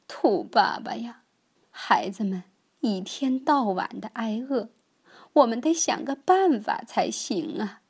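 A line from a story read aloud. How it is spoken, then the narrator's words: Crying. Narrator (Chinese): 兔太太哭着说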